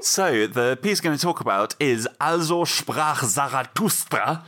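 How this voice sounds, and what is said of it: Put-on foreign accent on a title. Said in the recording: “Great accent.”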